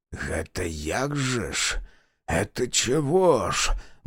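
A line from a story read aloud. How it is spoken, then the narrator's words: Mutter. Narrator (Russian): бормотал Полищук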